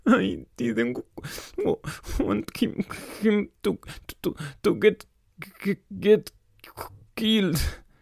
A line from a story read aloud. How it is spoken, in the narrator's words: Bill sobbed